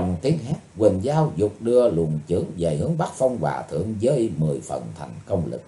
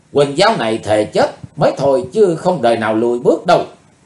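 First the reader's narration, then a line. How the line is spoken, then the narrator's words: Furious shout. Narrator (Vietnamese): Không còn dằn được cơn giận dữ nữa, Quỳnh Dao hét lên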